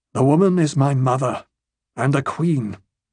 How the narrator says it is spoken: in a heavy tone

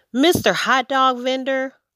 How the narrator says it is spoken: Amu exclaimed

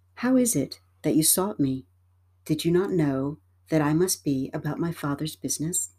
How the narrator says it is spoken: Calmly and serenely, Jesus replied

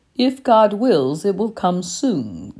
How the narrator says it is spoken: the stranger said

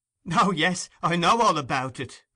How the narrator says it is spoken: replied the girl, laughing hysterically, with a poor assumption of indifference

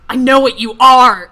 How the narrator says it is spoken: snarled

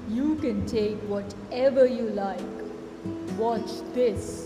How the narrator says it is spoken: boomed the ogre

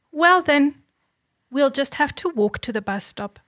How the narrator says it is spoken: she replied

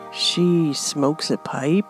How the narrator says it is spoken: Ro whispered, trying not to look disgusted at the thought of it

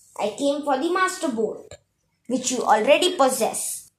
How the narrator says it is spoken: Hades shouted

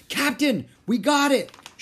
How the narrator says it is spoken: shouted Pinky

